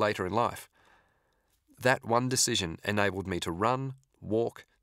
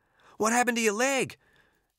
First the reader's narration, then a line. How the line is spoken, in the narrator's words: he exclaimed